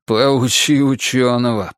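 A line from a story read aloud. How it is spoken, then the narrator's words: Grumbling. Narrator (Russian): проворчал Двуха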